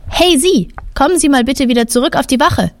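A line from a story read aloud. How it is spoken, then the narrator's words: Calling out. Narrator (German): Er ruft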